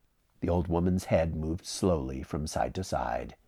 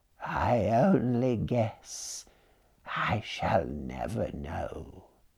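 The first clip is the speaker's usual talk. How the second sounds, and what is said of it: Slow, cracked, small old woman's voice. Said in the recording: “she answered slowly in her cracked little voice”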